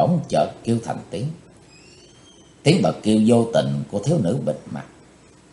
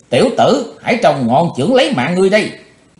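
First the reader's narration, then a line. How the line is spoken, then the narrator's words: Sudden loud shout. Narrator (Vietnamese): Cái thấy hồng bỗng quát lớn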